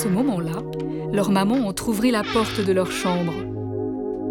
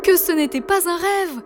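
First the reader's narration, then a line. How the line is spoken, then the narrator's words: Twins exclaiming in unison. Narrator (French): s'exclamèrent les deux jumeaux en chœur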